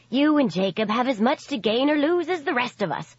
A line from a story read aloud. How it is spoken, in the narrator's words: Hassie snapped